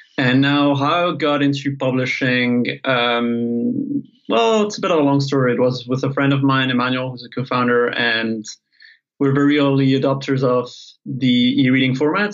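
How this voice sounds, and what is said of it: Mixed French-Spanish-Italian European accent. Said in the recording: “such a lovely accent ... It's a mix of French, Spanish, sometimes Italian. It depends on my mood. And it's due to a mixed European background”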